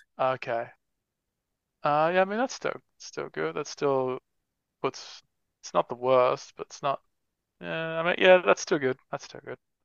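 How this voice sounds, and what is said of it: Australian accent. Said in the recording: “I'm assuming your accent is Australian, right?”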